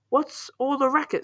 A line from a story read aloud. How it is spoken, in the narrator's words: Cindy cried